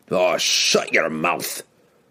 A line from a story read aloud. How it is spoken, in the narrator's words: snapped Bruner, his face flushed red with embarrassment